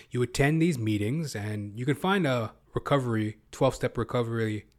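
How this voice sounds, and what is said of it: Slurred speech, sounds drunk. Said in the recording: “I'm talking like I'm drunk. I'm slurring my words.”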